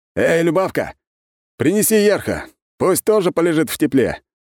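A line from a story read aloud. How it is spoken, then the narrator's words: Joyful booming. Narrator (Russian): Радостно прогремел он на весь огород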